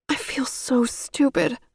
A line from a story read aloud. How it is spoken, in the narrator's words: I whimpered